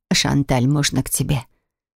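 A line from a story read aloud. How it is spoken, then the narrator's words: Quiet inquiry. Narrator (Russian): Тихо поинтересовалась мама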